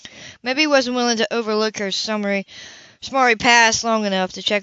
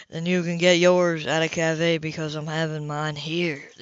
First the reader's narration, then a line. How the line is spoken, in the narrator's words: the other man said coolly